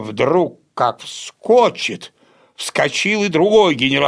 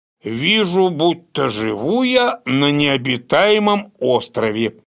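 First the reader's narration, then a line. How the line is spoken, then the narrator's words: Plain. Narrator (Russian): сказал это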